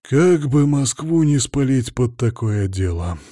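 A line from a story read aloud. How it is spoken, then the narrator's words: Sighed. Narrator (Russian): вздохнул боярин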